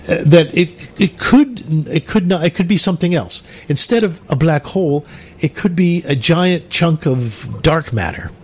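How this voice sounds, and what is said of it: Put-on British accent. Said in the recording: “Could you put it in a British accent, darling?”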